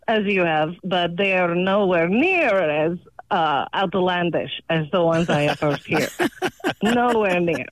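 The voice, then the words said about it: Non-native foreign accent. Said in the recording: “I'm hearing an accent”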